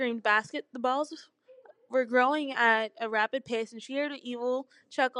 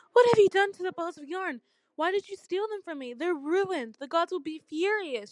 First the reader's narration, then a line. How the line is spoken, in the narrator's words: cried